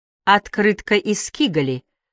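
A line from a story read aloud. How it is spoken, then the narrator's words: Plain. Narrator (Russian): сказал Бельман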